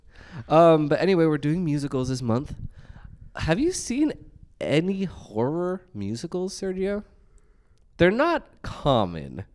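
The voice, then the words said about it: Sick, sniffly voice. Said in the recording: “today I have gotten very, very sick... I apologize for my sniffles... my voice is kind of weird”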